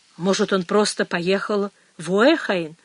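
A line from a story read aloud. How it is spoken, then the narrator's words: Plain. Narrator (Russian): ответила Мэгги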